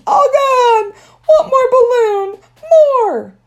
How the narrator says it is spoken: It popped and he screamed

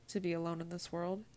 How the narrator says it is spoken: finally responded equally as quietly

